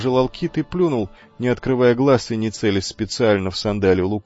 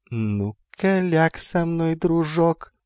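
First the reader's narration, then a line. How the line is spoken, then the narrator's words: Purring sung tune. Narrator (Russian): мурлыкнул Гермий на мотив модной теринской песенки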